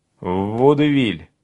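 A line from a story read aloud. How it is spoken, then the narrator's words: Reluctant mutter, younger one. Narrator (Russian): нехотя пробурчал младший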